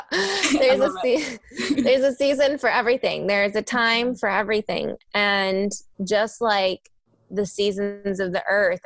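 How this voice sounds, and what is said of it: Kentucky accent. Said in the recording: “I'm from Kentucky originally. Sometimes my accent comes out.”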